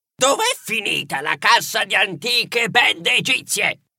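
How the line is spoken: Shrill shriek. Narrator (Italian): Geroglyph strillò

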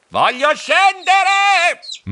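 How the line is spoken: Shouting. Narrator (Italian): Aprì la bocca per gridare

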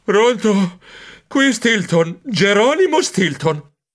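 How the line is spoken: Piercing shriek. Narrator (Italian): Mia sorella Thea strillò trapanandomi il timpano destro

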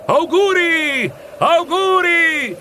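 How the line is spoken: Sailors' rough shouts. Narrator (Italian): gridavano i marinai con le loro voci ruvide

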